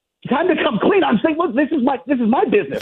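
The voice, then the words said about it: Yelling, raised angry voice. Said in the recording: “why are you yelling? ... no one's screaming here ... Relax. ... stop yelling.”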